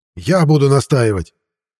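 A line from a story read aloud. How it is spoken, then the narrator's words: Indignant shout. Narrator (Russian): возмущенно выкрикнул выбывший из борьбы бразилец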